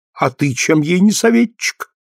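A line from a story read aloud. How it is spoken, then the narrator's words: Laughing. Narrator (Russian): засмеялась Елена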